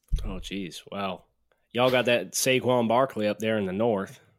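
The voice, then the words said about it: Put-on Southern Alabama accent. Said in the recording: “I want a Southern accent ... There's your Southern accent. That was a little bit more Alabama ... That wasn't your best.”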